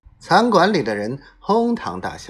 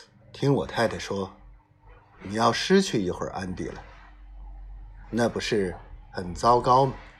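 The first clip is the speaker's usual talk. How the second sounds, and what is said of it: Deep, low voice. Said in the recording (Chinese): “用低沉的声音说”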